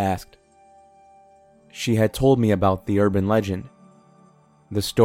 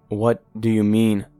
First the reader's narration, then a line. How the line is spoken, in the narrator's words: asked shakily